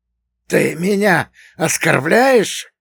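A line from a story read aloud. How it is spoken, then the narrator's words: Hiss. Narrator (Russian): прошипел Игошка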